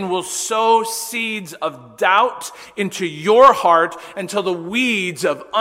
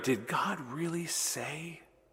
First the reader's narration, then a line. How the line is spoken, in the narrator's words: Satan whispered into Eve's ear